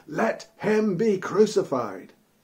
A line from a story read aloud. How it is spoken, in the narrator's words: they all shouted the more